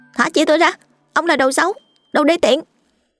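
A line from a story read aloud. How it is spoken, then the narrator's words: Shout. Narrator (Vietnamese): Cụi hét lên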